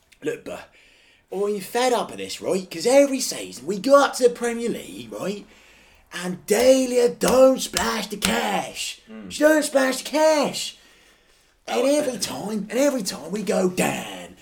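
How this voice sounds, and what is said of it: Put-on London accent. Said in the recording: “I don't know why I gave him that London accent ... I don't know why I'm giving London accent.”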